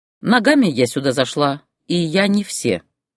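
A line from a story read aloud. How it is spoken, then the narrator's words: Calm woman's reply. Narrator (Russian): спокойно ответила женщина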